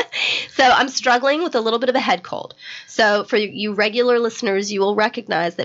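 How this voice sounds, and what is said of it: Raspy, froggy voice. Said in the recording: “I'm a little froggy ... my voice is never this raspy. I think it's kind of sexy, though ... I love a raspy voice”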